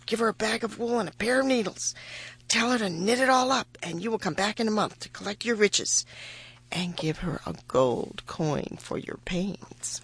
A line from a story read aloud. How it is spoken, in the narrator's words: whispered Rumpelstiltskin's daughter